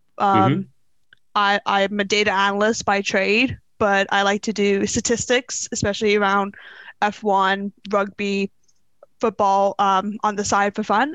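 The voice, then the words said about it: Bermudian accent, sounds somewhat American. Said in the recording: “if you can't tell by my accent, I am not British. I'm originally from the island of Bermuda ... I apologize for sounding American sometimes and saying American pronunciations”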